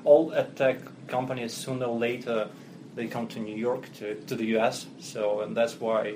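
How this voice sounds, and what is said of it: Russian-accented English. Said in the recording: “as you can hear from my accent, I'm not native ... originally I'm Russian”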